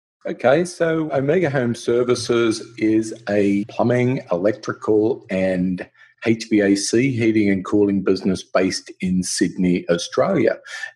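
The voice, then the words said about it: Australian accent. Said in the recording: “From your accent, we already may have picked up you're from the land down under in Australia”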